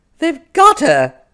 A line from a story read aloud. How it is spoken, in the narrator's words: she exclaimed in a trembling, terrified voice